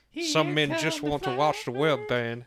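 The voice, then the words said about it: Bad Michael Caine impression. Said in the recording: “That's a really bad Michael Caine impression.”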